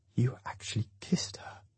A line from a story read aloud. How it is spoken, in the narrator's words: he whispers